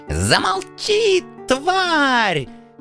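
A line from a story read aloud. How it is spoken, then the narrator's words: Spluttering shriek. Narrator (Russian): Брызгая слюной, завизжал принц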